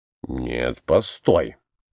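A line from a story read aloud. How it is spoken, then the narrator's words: Muttering. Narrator (Russian): бормотал Николай Иванович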